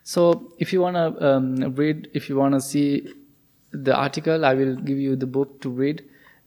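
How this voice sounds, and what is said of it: Speaks with a different accent. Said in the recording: “maybe my accent is different”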